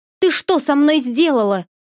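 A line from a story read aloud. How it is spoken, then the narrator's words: Shouted in shock. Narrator (Russian): закричала журавль, отойдя, наконец, от шока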